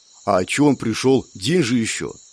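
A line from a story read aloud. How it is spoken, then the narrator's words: Quiet question. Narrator (Russian): тихо спросила вторая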